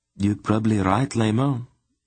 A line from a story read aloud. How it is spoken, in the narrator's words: a second voice agreed with a regretful sigh